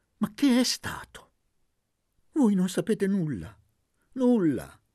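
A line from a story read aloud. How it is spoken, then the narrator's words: Lawyer's whimpering exclamation. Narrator (Italian): esclamò piagnucolando l'avvocato Colonna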